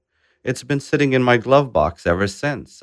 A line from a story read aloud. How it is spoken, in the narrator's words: Adal Sahib shouted back and laughed